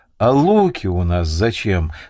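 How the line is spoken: Calm. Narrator (Russian): спокойно ответил Ярилка Вилк

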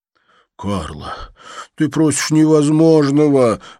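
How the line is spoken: Pleading. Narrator (Russian): взмолился Тадж

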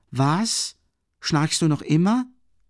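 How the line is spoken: Annoyed call. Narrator (German): rief mit Unwillen

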